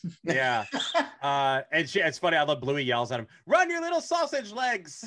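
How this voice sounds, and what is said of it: Usual voice. Nothing is said of it.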